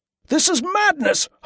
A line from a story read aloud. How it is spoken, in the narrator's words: Hallam shouted